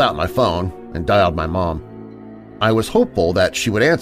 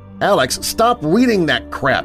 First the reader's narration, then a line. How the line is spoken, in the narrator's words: yelled Lena